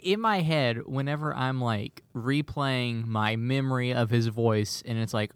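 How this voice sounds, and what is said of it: Usual voice. Nothing is said of it.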